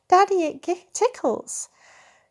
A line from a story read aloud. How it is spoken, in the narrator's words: her giggles